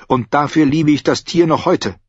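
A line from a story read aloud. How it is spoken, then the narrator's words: Sharp female voice. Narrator (German): sagte sie scharf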